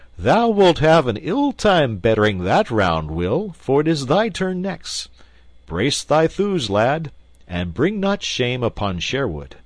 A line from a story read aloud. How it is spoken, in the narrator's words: Merry Robin laughed, and quoth he